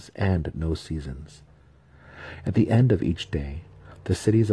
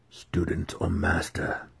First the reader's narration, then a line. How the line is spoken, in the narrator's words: came the expected whisper